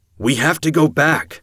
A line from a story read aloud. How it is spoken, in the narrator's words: I shouted